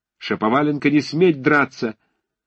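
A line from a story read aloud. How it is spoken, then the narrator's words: Ashamed, angry shout. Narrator (Russian): крикнул Ромашов, весь вспыхнув от стыда и гнева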